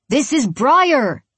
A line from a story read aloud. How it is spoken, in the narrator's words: he shouts, as if he's acting out a scene from Gladiator